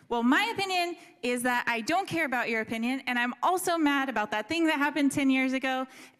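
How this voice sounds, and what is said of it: Raised, louder argumentative voice. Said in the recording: “I'm raising my voice.”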